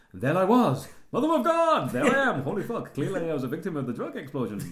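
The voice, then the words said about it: Imitates another person's voice. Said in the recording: “I think that was a good impression. ... Because that's how he spoke. That was really on voice.”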